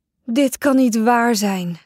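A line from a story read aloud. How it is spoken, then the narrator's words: Loud sigh. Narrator (Dutch): zuchtte André hardop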